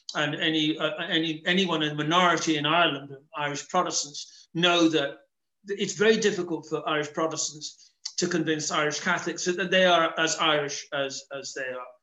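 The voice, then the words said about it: English-sounding accent. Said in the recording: “I am perceived as an Englishman ... my accent portrays me as not being authentically Irish”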